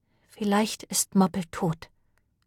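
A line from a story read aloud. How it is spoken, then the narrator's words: Very quiet. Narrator (German): sagte Lane sehr leise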